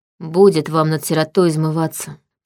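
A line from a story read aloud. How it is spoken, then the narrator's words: Grumbled. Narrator (Russian): пробурчала я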